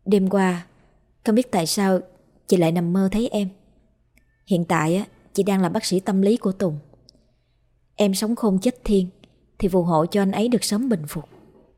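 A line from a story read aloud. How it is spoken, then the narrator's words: Muttered prayer. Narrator (Vietnamese): miệng lẩm bẩm khấn vái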